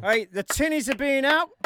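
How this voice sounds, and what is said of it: Weak put-on Australian accent. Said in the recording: “That was my best Australian accent ... I thought it sounded like you were from Scarborough”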